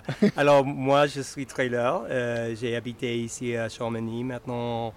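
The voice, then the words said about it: French spoken with a foreign accent. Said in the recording (French): “Tu as, un très bel, très accent. Ah, c'est parfait.”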